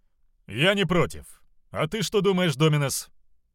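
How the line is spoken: Wry grunt. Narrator (Russian): Хмыкнул

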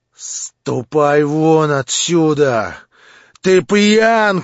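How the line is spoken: Agitated shout. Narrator (Russian): крикнул красневший и бледневший попеременно Ганя

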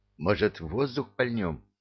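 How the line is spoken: Timid suggestion. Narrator (Russian): Робко предложил Ларев

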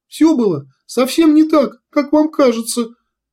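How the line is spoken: Squeak. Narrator (Russian): пискнул Кумар

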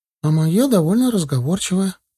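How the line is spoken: Timid. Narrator (Russian): как-то робко поделилась Лера

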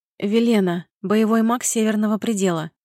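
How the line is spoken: Hoarse from the cold. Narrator (Russian): хрипло после мороза отозвалась она

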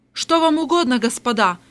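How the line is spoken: Shout. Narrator (Russian): крикнула Эльвира

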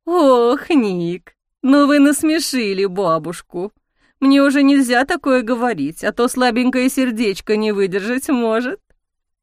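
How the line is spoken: Cooing through laughter. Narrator (Russian): курлыкала сквозь смех

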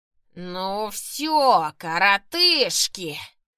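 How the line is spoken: Echoing growl. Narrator (Russian): прорычал, и его голос эхом прокатился по всей башне

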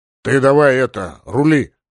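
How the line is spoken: Grumbled. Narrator (Russian): буркнул

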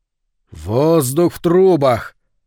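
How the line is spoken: Loud declamation. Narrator (Russian): громко продекламировал Говард

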